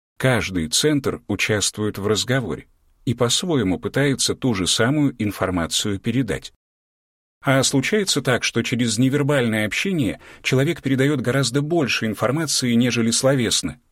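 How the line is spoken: Plain question, woman. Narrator (Russian): спросила женщина

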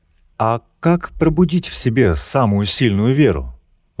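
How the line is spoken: Plain. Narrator (Russian): вновь спросила Ева

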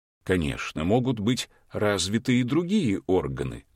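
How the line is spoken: Plain. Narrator (Russian): сказал мудрец

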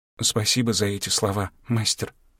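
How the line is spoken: Soft timid young woman. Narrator (Russian): тихо проговорила робкая девушка

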